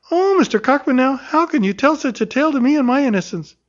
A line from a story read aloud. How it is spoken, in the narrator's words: she cried gaily